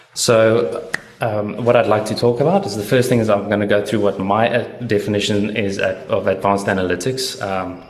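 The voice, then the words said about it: Voice giving out. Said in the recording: “I'm losing my voice half the time.”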